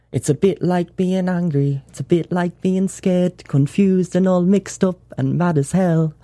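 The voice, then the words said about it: Put-on Geordie accent. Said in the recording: “he would sing in a Geordie accent too”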